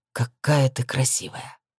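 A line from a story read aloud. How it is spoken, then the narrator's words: Hoarse. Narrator (Russian): хрипло произнес он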